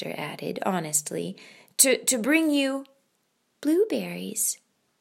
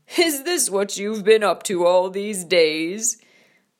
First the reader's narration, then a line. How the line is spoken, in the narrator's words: A laugh like thunder rumbled out